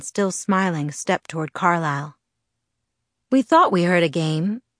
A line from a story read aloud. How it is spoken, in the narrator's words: he said in a relaxed voice with the slightest of French accents